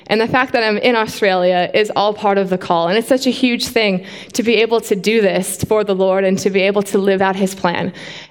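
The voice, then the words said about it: Canadian accent. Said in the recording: “you guys may sound from my accent, but I'm actually Canadian”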